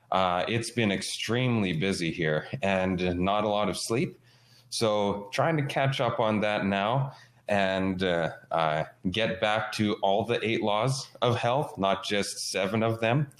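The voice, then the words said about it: Voice sounds ill, recovering. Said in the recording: “You probably hear in my voice that I'm just getting a little bit better. I've been under the weather for quite some time.”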